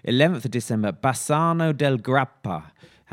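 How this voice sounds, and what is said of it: Put-on Italian accent. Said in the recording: “How do you like that for your Italian accent?”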